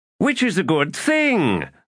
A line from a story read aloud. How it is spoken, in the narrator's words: cried Tehol